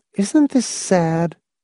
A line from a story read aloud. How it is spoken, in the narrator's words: She said mournfully to Hamilton